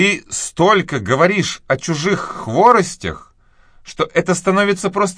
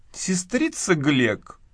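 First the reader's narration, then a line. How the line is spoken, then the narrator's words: Tearful voice. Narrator (Russian): плачущим голосом сказала миссис Пулет, в волнении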